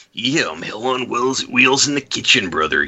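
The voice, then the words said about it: Randy Savage impression. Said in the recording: “doing a Randy Savage impression”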